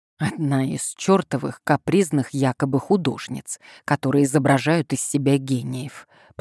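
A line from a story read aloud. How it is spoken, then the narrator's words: Muffled mutter. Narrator (Russian): пробормотал он, прикрыв трубку рукой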